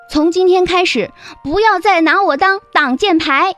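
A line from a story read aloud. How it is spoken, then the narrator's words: Shouting in ear. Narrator (Chinese): 林静在长天耳边喊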